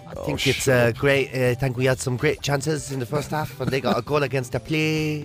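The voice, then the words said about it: Put-on Newcastle accent. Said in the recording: “why are you doing it in a Newcastle accent?”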